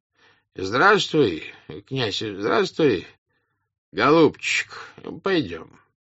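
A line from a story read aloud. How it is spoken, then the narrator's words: Weary. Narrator (Russian): устало проговорил он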